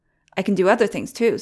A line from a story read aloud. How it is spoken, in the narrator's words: said Nicholas